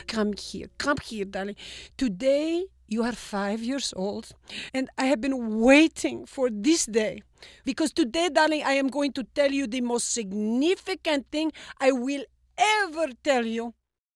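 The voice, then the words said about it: Thick Greek-Egyptian accent, dramatic. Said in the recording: “My dad was a Greek-Egyptian. He spoke in a very thick accent. He was dramatic. He was theatrical. He was emotional.”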